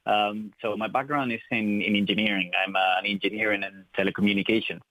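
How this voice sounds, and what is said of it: Spanish accent in English. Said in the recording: “by my accent, I'm not from Ireland. I'm from Spain.”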